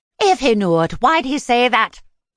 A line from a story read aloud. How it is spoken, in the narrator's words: She snapped